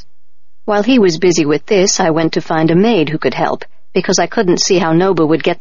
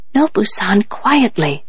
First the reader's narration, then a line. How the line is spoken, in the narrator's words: I whispered